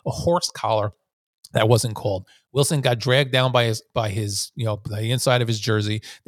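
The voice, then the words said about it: Speaker's own regional accent. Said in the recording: “Sometimes my accent drives me nuts.”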